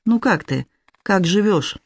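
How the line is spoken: Hesitant question. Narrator (Russian): неуверенно спросил он

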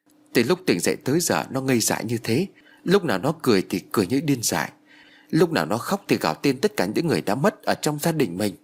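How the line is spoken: Sighing reply. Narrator (Vietnamese): Bác gái liền thở dài đáp

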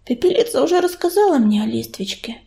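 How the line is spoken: Quiet. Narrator (Russian): тихо сказала Белочка

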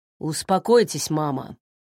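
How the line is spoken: Grumbling. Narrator (Russian): буркнул Арнольд

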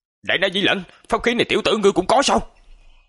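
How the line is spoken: Angry old man shouting. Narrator (Vietnamese): Lão giả giận dữ hét lớn

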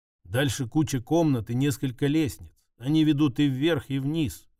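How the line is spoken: Plain. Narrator (Russian): ответила Катя

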